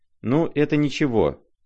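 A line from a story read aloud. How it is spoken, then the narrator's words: Plain. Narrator (Russian): ответила Лизавета Прокофьевна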